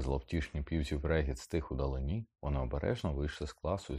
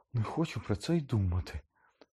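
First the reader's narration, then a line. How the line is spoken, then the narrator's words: Moaned. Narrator (Ukrainian): простогнала Герміона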